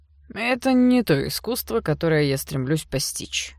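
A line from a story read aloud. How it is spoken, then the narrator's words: Scoffing snort. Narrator (Russian): хмыкнул Серж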